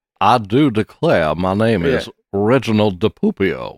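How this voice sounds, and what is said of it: Put-on Southern American accent. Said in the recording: “I'm going to talk with a Southern accent ... It's all of a sudden I hit the southern accent.”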